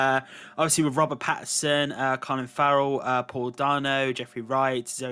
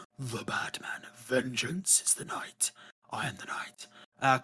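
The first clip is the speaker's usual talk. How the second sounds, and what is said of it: Poor Batman voice impression. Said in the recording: “my terrible Batman impression ... because I've got a much higher voice.”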